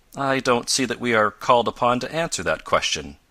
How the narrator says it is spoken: replied Professor Bumper stiffly

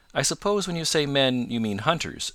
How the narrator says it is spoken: said Peter

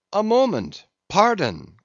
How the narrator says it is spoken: cried

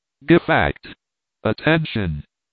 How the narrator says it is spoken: he said in his tranquil voice

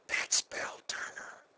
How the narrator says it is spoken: whispered Helen

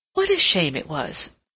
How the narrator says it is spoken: she exclaimed

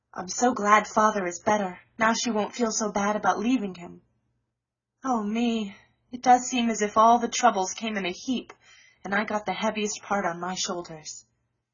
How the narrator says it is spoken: sighed Joe

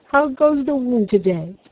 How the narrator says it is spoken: he cried cheerily

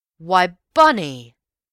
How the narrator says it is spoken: cried Raffles

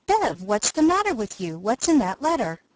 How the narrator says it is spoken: Felix exclaimed

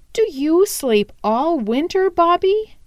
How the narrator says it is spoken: he asked eagerly

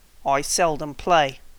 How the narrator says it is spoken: said the Psammead coldly

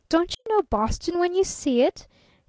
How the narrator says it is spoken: he cried a trifle testily

